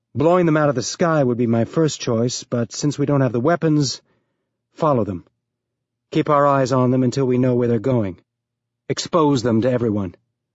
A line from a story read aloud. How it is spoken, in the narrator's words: Holden replied